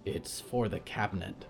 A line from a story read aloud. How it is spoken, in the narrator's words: a voice whispered like television static